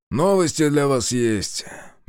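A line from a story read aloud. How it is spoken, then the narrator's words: Nasty voice. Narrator (Russian): мерзким голосом сообщил Лукин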